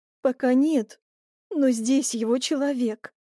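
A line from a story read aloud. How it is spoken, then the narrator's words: Despairing moan. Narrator (Russian): с отчаянием простонала девушка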